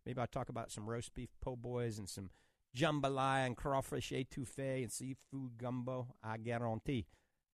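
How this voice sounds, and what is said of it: Cajun New Orleans accent. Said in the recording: “That's my Cajun accent coming out. I grew up in New Orleans.”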